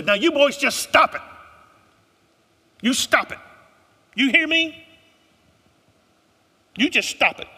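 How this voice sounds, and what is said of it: Thick Southern accent, scolding mother. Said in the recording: “She had a thick Southern accent. ... Anybody ever heard a white southern mama say, stop it?”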